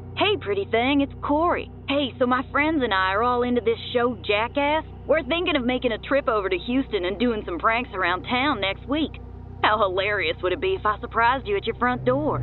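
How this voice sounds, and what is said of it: Southern twang, East Texas accent. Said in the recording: “Some boy with a twang in his voice? Sounds like he's from East Texas or Louisiana.”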